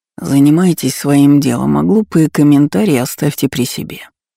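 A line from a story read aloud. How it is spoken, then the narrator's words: Hoarse voice. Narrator (Russian): хриплым сосноголосом сказал Арбузов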